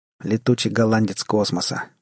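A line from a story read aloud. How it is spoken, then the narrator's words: Grim joking. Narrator (Russian): мрачно пошутил Джек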